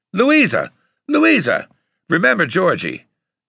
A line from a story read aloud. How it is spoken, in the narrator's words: Papa cussed too, hollering